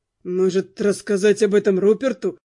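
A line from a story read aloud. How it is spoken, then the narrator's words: Groan. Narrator (Russian): простонал Дэн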